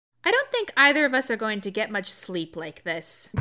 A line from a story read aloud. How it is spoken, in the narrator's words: Inej said, and though her tone was light